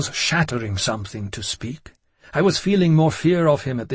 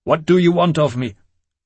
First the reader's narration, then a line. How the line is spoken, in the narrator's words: Angrily I said